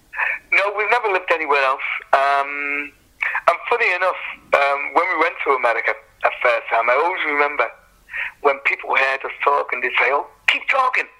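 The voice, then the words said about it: Liverpool accent. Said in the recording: “You've never lost your accent. You're firmly rooted to Liverpool”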